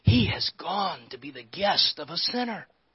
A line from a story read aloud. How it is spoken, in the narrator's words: All of the people began to mutter